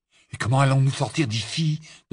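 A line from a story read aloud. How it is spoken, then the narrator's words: Hurried question. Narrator (French): demanda alors qu'il se hâtait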